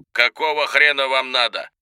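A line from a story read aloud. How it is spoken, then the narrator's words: Bark over the phone. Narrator (Russian): Тот ответил почти сразу, рявкнув в трубку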